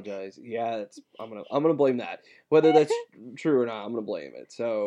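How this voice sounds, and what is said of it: Usual voice. Nothing is said of it.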